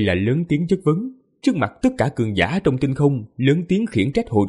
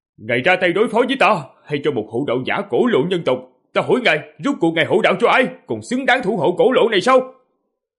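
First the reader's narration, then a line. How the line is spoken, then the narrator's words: Loud shout. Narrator (Vietnamese): Diệp Phàm hét lớn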